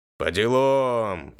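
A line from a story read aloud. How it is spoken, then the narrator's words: Gruff piercing bass voice. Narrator (Russian): постарался сделать голос грубым, с таким пронизывающим басом, чтобы выглядело эпично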